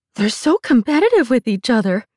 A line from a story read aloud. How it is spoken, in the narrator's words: one exclaimed, laughing